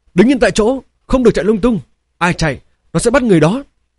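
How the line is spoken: Shout. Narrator (Vietnamese): Lam Cảnh Nghi quát lên

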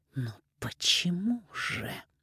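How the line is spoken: Hissing. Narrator (Russian): прошипела Софья

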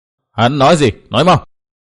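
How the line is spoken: Angry shout. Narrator (Vietnamese): Phác Ma Thiên tức giận quát

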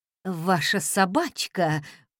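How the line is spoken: Stunned mutter. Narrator (Russian): пробормотал ошарашенный официант

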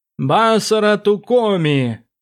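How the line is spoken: Sudden chanting. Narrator (Russian): произнес вдруг нараспев Квов Дзин

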